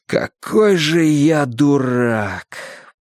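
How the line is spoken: Near groan. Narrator (Russian): почти застонал Мэтью

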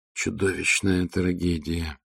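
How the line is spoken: Choked muttering. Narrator (Russian): сдавленно пробормотал биолог экспедиции Эон Тал

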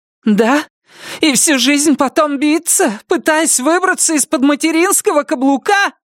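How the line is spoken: Furious, ugly shout. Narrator (Russian): Выкрикнула она яростным, некрасивым голосом, не имевшим ничего общего с ее обычным голосом, мягким и тихим

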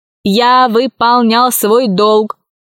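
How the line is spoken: Plain. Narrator (Russian): ответил робот

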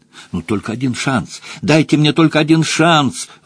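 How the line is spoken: Pleading young man. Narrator (Russian): взмолился молодой человек

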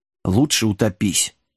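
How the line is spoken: Muttered. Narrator (Russian): пробормотал Джек

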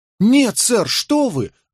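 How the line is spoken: Exclaimed. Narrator (Russian): воскликнул Скамблер

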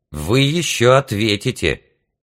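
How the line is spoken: Loud indignant woman's voice. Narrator (Russian): громко и возмущенно разъяснял голос дамы, ведущей передачу

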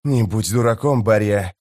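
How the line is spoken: Hissing. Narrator (Russian): прошипел чародей

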